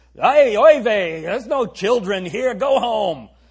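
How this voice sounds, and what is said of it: Brooklyn Jewish mother accent. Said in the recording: “read these verses with a Jewish accent. Can't you picture a Brooklyn Jewish mom”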